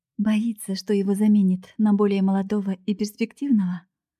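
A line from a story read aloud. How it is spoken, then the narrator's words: Chuckling man. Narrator (Russian): Мужчина хохотнул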